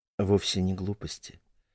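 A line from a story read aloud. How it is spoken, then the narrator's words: Soft objection. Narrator (Russian): мягко возразила Елена Андреевна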